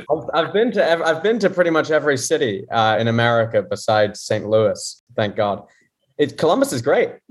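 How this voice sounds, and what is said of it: English accent from London. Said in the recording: “he does not have a Columbus, Ohio accent ... I'm originally from London, England.”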